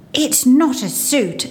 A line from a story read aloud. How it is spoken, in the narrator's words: Archie would growl